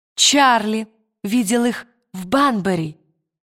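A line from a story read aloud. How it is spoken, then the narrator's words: Plain. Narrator (Russian): сказала цыганская девочка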